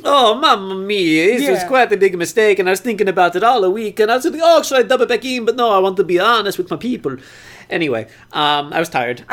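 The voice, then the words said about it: Exaggerated put-on Italian accent. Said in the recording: “make this offensive Italian accent for, like, 5 straight minutes”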